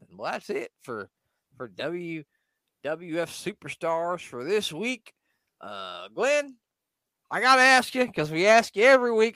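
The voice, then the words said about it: Put-on Southern US accent. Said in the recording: “I decided to go with my southern accent right now”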